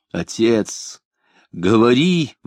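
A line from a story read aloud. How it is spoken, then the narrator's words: Frantic, drunken-sounding moan. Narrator (Russian): вне себя, будто в опьянении простонал Захарьев Авинов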